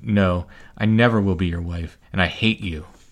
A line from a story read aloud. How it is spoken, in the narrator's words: her voice did not tremble, and she answered